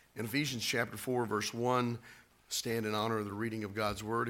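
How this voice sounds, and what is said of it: Voice in poor condition. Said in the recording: “As you can hear, my voice is not that great today.”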